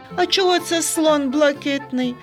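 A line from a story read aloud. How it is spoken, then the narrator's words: Laughing child. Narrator (Ukrainian): засміявся Сергійко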